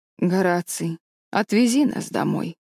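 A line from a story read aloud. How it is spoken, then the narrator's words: Sad grandmother. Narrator (Russian): грустно сказала бабушка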